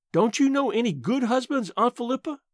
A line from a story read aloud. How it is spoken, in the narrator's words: I asked desperately